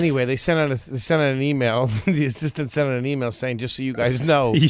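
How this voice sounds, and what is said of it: Usual voice. Nothing is said of it.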